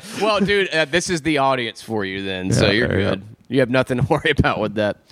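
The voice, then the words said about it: Southern American accent. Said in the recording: “you have like a southern accent”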